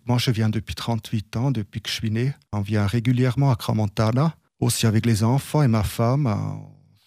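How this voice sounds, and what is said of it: Slight Zurich accent in French. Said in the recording (French): “vous avez un petit accent, vous êtes de Zurich ... seulement un petit accent”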